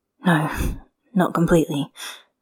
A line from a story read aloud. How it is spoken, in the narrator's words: Lan Zhan agreed, his hands gripping the wheel too tightly